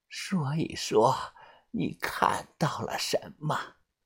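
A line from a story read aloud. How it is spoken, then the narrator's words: Grandmother speaking quietly. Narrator (Chinese): 小唐奶奶小声的开口说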